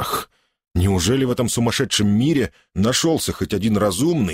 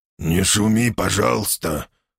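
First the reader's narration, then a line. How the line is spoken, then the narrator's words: Quiet, careful speech. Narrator (Russian): Умудрившись не споткнуться ни на одном слове, тихо проговорил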